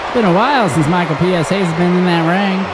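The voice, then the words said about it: Southern twang accent. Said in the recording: “I have a southern twang now”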